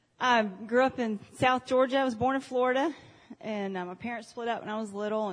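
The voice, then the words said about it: Southern American accent. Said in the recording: “I'm a Southern girl. I have an accent”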